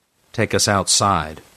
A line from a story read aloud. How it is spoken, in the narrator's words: Frank said impatiently